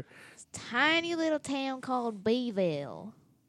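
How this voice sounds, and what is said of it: Southern US accent. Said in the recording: “such a southern accent?”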